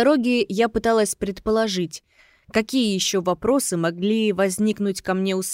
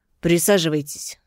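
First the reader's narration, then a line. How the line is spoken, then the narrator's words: Gloomy. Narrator (Russian): сказал Родионов мрачно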